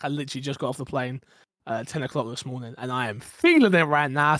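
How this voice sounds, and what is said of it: Raspy, sick-sounding voice. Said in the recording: “I'm a bit sick as well, so my voice might sound a little bit raspier than usual. I got the con flu”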